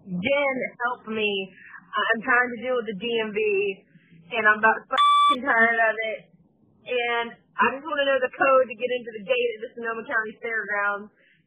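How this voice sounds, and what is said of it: Strong Southern accent, angry tone. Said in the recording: “Your southern accent really comes out when you're mad.”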